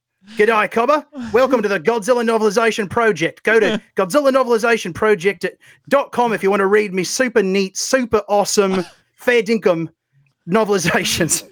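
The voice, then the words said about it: Intense put-on Australian accent. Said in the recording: “the problem with my Australian accent is that it's more intense. You know, it's sort of I've got to really like go for it ... crocodile hunter ... It's got to be like really, really intense.”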